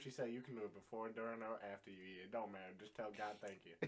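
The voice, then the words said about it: Southern accent impression. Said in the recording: “That was a beautiful Southern impersonation.”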